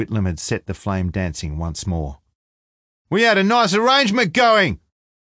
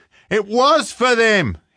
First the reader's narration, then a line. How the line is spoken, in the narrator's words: he screamed